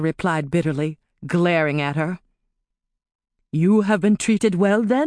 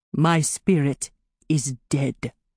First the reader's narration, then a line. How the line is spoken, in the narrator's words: he said, his voice empty